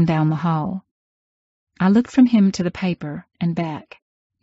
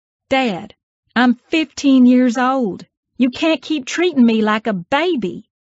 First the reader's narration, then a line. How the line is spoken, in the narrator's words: I yelled from the kitchen island